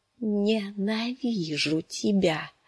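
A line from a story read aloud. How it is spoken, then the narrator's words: Whisper. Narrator (Russian): прошептала она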